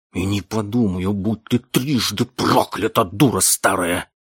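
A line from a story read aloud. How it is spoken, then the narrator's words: Hissed. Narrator (Russian): прошипел мистер Дарк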